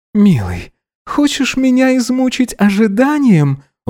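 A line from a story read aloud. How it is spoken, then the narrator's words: Breathy exhale. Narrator (Russian): выдохнул Гидеон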